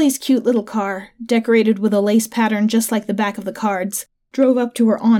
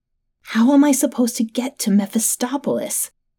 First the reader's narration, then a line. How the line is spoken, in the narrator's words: I hissed at Gina